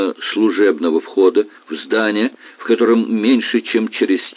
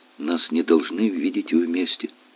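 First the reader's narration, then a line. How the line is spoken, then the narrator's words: Very soft, rustling. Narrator (Russian): произнесла она так тихо, как только ветер может прошелестеть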